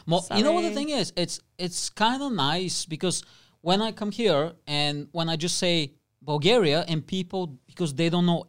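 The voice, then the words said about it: Eastern European accent. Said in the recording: “when you hear my accent, where do you think I'm from? ... Bulgaria”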